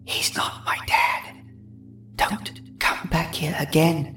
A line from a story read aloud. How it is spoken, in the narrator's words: She whispered